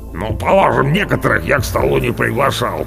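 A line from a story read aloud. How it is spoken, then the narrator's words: Big-bellied man grumbling. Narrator (Russian): проворчал Орвар, большое брюхо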